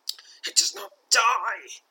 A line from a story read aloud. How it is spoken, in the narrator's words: stammers, his demeanour betraying a powerful terror that grips him